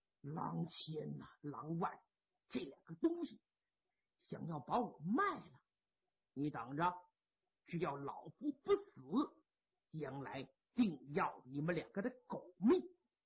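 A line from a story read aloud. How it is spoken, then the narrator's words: Through gritted teeth. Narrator (Chinese): 潘仁美一咬牙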